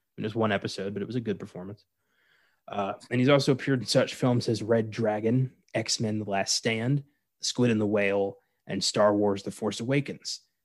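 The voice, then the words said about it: Calm NPR-style radio voice. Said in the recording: “my voice has suddenly taken on an NPR quality. Maybe I'm just very tired.”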